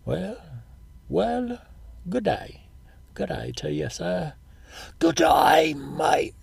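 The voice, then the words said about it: Put-on English and Australian accents. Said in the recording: “my English accent and my Australian accent are kind of similar ... I use more emotion when I talk with an Australian accent”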